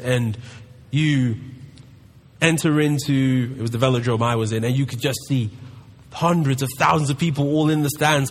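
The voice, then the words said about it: London English accent. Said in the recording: “as you can tell by my accent, I'm from London”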